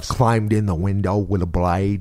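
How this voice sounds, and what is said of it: Poor attempt at Australian accent. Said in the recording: “You want to hear the worst Australian accent? ... You sound like you're from Greenville, Alabama.”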